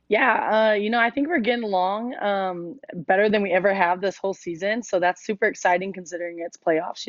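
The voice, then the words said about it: Hoarse, nearly lost voice. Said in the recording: “I've lost my voice. I was cheering too much yesterday.”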